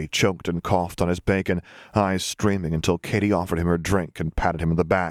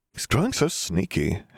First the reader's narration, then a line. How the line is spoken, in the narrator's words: Harry sighed